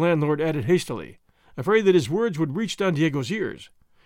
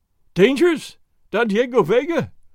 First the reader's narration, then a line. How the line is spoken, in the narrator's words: the landlord cried, while tears ran down his fat cheeks